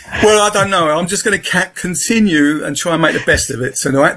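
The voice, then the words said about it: Southeast London accent. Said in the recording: “I was brought up in Peckham, London, Southeast London. So that's my accent.”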